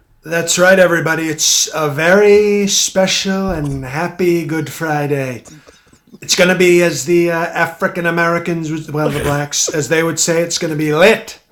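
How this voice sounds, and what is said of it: Donald Trump impersonation. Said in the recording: “great Trump impersonation”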